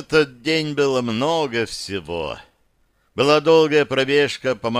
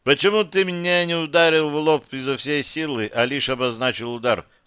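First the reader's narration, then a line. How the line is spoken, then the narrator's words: Plain. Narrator (Russian): спросил Гек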